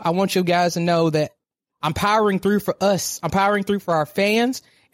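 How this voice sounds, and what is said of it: Hoarse, weakened sick voice. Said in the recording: “as we hear, I'm sick. My voice isn't gone because of this live show, because of teaching. My voice is gone because I have an upper respiratory infection”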